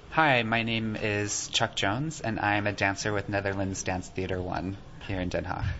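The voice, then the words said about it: American accent. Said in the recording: “an American accent”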